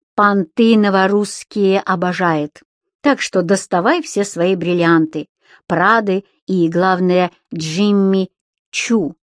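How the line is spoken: Cheerful addition. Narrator (Russian): весело добавил

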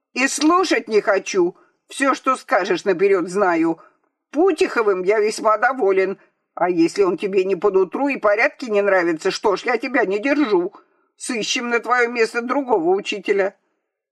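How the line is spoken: Shouting, interrupting. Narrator (Russian): Генерал, перебивая Гурьева, закричал

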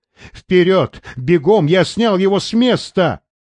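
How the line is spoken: Shouting. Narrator (Russian): кричал Рейнольдс

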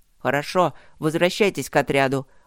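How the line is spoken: Curt command. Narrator (Russian): отрывисто приказал Ровент

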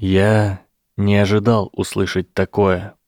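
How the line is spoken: Gentle. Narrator (Russian): мягко сказал Гарри

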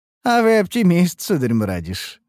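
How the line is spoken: Laughing. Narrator (Russian): рассмеялся Ромери

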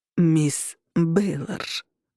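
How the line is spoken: Slow, over-deliberate. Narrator (Russian): он говорил медленно, словно у меня были проблемы со слухом

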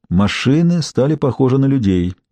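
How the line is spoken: Sighed. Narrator (Russian): вздохнул Найтингейл

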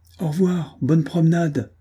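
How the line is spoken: Shouted. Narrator (French): cria-t-elle

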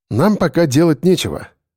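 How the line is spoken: Calm reply. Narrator (Russian): ответил я спокойно

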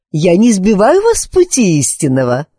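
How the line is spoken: Cheerful inquiry. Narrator (Russian): весело поинтересовалась Друзилла

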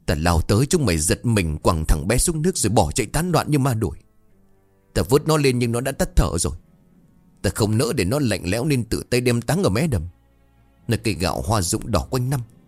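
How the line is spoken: Hissing through teeth. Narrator (Vietnamese): Ông Lạc lại nói tiếp, giọng rít lên qua kẽ răng

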